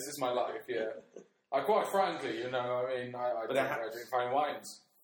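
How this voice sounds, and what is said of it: Put-on posh accent. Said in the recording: “sometimes I put on a really posh accent”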